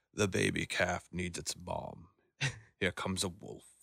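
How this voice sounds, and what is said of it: Poor attempt at British narrator accent. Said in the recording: “I did a terrible impression of him... There's no way you were trying a British accent right there... it doesn't really sound British”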